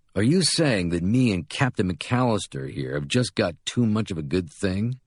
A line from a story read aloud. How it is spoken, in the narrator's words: sneers